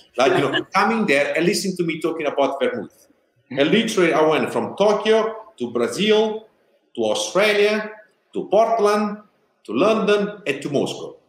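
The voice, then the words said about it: Heavy Italian accent. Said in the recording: “an Italian with a funny accent, which half of what I was saying, people, they could not understand it because of my accent”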